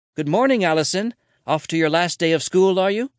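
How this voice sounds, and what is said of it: Put-on Irish accent. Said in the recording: “with a noticeable Irish accent”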